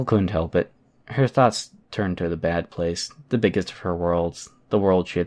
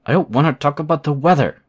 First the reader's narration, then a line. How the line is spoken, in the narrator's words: Burnscar snapped the words, in a mixture of desperation and anger